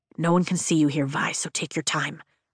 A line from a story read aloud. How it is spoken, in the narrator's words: Dane says softly